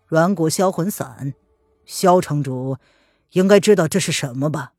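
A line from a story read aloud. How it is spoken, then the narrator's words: Cold, detached. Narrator (Chinese): 叶轩寒，他语气冷冷的、淡淡的说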